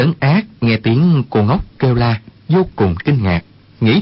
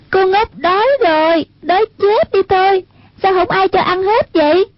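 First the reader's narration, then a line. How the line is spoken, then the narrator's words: Cry out. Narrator (Vietnamese): có tiếng người kêu lên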